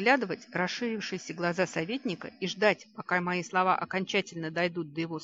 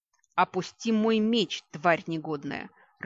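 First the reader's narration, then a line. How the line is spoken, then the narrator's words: Furious growl. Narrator (Russian): Рыкнула я на Ваську, надвигаясь разъяренной кошкой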